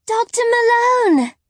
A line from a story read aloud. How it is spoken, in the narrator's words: Lyra cried